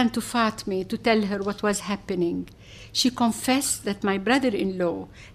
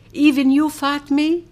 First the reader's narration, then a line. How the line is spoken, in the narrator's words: I sobbed